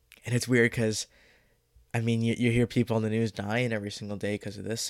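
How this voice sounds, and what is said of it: Deeper, congested voice. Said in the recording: “my voice sounds a little bit deeper. It's just because I'm congested”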